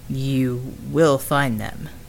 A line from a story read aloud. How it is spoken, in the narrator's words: asked